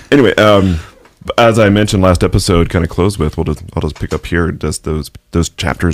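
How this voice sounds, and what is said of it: Smooth radio-announcer voice. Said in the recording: “you have the radio voice”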